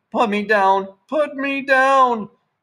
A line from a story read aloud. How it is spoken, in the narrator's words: Sandra kept screaming